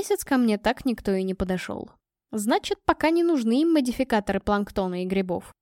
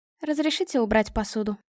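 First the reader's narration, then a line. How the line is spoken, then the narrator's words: Dry. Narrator (Russian): произнесла она сухо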